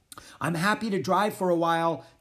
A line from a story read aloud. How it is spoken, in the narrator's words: Jack shouted in the wind